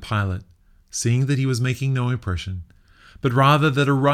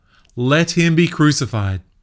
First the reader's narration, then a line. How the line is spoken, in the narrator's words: But they shouted all the more